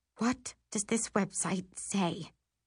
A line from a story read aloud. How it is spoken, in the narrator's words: whisper